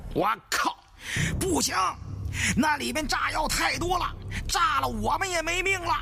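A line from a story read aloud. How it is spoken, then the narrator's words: Shouting. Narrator (Chinese): 盘子在上面喊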